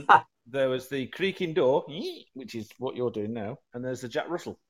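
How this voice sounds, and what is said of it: Usual voice. Nothing is said of it.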